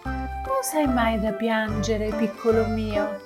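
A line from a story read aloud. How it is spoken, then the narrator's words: Warm, gentle voice. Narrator (Italian): disse quella pozzanghera con la voce più calda e soave che il fiocco di neve avesse mai sentito in vita sua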